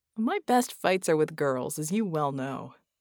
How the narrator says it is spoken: Red chuckled

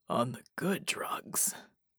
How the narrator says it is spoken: he rasped

